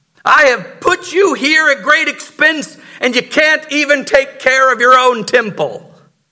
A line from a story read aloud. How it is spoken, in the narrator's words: he screams